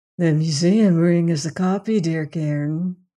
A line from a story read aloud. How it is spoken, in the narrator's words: huskily musical, hateful voice